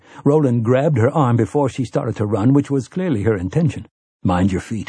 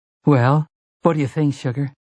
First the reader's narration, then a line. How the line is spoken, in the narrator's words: Susanna spoke nervously, like a woman who has come home to her husband with some radical new hairdo